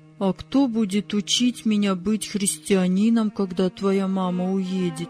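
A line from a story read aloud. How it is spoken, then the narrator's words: Quiet question. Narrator (Russian): тихо спросил Владик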